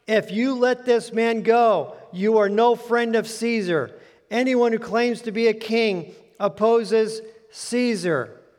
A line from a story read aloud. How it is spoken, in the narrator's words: the Jews kept shouting